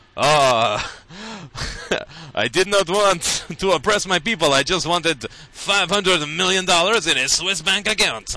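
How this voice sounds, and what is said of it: Weird French-influenced African accent. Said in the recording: “a little bit of French influence, and that's what I was trying to capture in that really, really weird accent”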